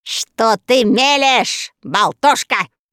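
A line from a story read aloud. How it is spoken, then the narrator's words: Exasperated yell. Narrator (Russian): завопил, не выдержав Баанну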